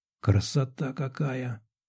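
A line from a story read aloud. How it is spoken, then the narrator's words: Breathless exhale. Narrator (Russian): выдохнула Анжелика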